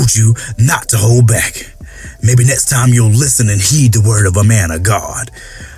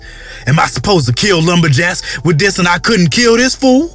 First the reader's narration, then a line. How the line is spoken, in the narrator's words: He yelled